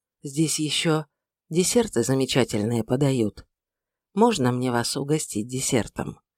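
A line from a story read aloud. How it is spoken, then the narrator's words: Quiet. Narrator (Russian): проговорил тихо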